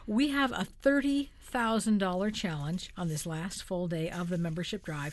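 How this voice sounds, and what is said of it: Excited, upbeat voice. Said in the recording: “hear the excitement in my voice.”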